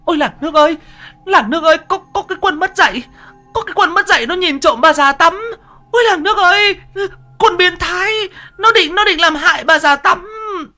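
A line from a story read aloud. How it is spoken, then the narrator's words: Shrieking old woman. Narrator (Vietnamese): Bà rú lên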